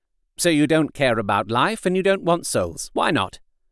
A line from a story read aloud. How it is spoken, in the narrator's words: I put my question quickly and somewhat sternly